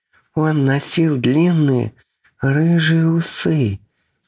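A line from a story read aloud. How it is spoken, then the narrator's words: Sudden exclamation. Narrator (Russian): Вдруг воскликнула Чигуса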